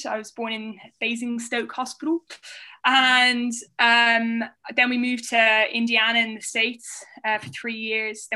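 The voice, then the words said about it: Hybrid mixed international accent. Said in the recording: “I consequently had a very hybrid accent, which I've managed to hang on to.”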